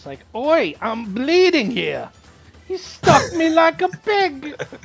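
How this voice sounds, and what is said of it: Ridiculous put-on accent. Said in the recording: “such a ridiculous accent”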